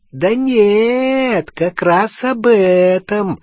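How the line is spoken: Unpleasant laugh. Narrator (Russian): неприятно засмеялся Крюкохват

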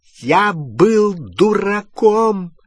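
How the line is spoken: Very loud exclamation. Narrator (Russian): воскликнул Перси так громко

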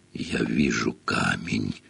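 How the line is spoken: Whispered. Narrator (Russian): прошептал он

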